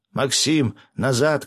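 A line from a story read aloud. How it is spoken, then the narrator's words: Shout. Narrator (Russian): крикнул я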